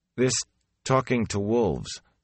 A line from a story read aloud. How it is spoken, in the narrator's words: Perrin said uneasily